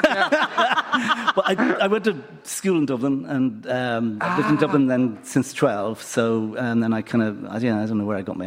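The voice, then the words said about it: Irish accent. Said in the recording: “it's very clearly an Irish accent to English people”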